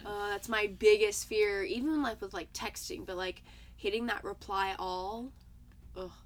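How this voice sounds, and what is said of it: Hoarse, raspy voice. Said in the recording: “I sound like a chain smoker. Allergies.”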